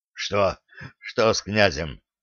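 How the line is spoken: Hoarse, elderly man. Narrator (Russian): прохрипел пенсионер

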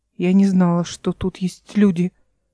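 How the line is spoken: Whispered. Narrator (Russian): прошептала она

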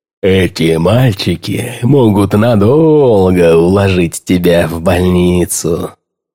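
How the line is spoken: Dreamy drawl. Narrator (Russian): мечтательно протянул мистер Регги

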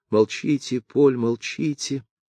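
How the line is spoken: Frightened girl whispering. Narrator (Russian): прошептала в испуге девушка

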